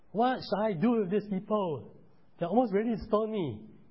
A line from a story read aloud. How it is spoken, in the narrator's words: Moses cried out to the Lord and said